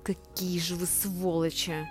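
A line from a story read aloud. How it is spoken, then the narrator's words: Through gritted teeth. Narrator (Russian): сквозь зубы проговорила Оксана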